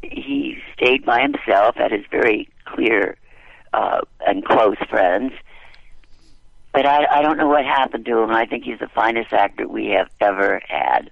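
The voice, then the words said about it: Husky voice, sounds like a cold. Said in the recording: “do I sound sexy because of my cold?”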